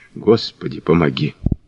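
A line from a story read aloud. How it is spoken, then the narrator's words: Breathless barely-moving whisper. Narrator (Russian): Он затаил дыхание, прошептал, едва шевеля губами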